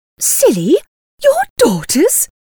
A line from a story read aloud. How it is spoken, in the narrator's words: exclaimed Mrs